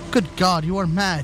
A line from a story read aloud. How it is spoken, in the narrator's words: cried